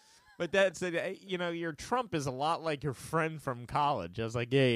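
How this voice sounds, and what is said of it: Usual voice. Nothing is said of it.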